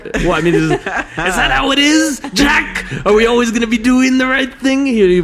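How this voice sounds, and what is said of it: Imitates another person's voice. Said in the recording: “He'll do the Alec Baldwin”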